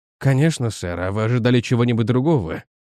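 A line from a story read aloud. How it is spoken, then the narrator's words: Relieved sigh. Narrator (Russian): Доктор с облегчением вздохнул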